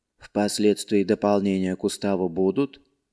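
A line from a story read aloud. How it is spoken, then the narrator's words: Quiet businesslike question. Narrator (Russian): Так же тихо и по-деловому спросила она у Марка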